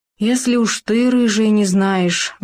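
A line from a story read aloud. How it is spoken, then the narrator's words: Bear's sigh. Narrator (Russian): вздохнул медведь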